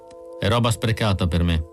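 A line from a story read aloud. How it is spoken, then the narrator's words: Flat toneless voice. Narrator (Italian): Con voce atona, Pris disse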